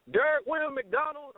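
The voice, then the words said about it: Imitated voice with southern accent. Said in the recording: “he has a southern accent”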